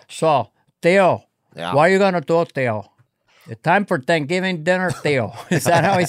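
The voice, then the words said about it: Put-on Cuban accent. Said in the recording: “Al Pacino's crazy Cuban accent ... He had probably, I would say, 40% accent ... He's a little lighter”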